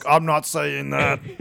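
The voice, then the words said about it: Imitates another person's voice. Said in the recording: “my Arnold impression”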